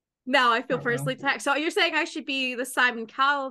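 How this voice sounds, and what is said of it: Usual voice. Nothing is said of it.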